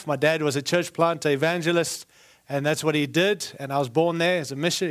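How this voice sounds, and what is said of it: Foreign, non-American English accent. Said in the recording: “I do have an accent, as you can tell. I was born in Africa ... moved to South Africa. I spent 17 years there, and then moved to Australia.”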